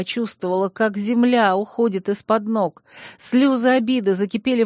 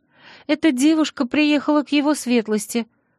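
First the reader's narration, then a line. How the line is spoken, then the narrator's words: Timid squeak. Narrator (Russian): пропищала горничная, вжав голову в плечи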